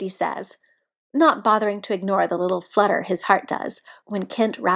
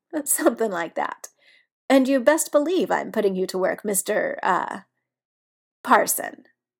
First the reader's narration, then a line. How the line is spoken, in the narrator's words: Biddy laughs and tells him